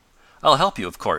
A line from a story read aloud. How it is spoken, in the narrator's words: said Tom